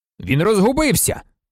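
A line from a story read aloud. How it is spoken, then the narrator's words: Shouted. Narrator (Ukrainian): закричав Люпен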